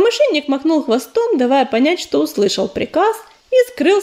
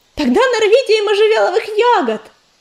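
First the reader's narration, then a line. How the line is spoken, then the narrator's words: Shouted after someone. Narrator (Russian): крикнула вслед убегающему воину Листвичка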